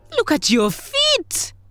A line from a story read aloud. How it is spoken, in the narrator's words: Grasshopper cried